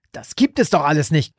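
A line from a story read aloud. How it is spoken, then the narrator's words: Desperate shriek. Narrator (German): kreischte er verzweifelt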